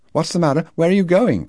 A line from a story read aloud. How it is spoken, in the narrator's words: cried Lo from the porch